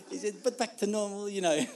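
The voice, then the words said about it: Put-on French accent, getting worse. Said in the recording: “my French accent ... I know it's getting worse as the time goes on. That's the end of the accent.”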